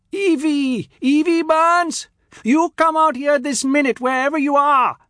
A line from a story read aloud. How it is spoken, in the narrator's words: she yelled at the top of her voice